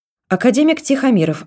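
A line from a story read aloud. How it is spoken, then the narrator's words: Loud and fast. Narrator (Russian): ответили ей громко и быстро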